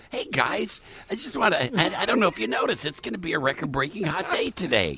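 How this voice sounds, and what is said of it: Imitates another person's voice. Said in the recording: “that's a really good impression. ... Really good. ... I've just worked out the impersonation.”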